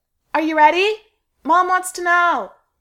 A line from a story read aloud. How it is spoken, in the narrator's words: she hollers